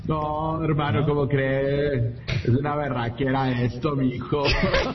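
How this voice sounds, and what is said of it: Imitated Colombian Spanish accent. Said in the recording (Spanish): “si le sale o no le sale, el acento colombiano ... Sí le sale poquito.”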